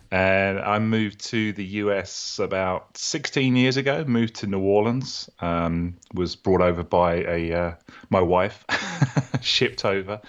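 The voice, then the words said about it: British accent. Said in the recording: “You have a British accent ... Originally from the UK, as you can tell from my accent, very similar to your accent.”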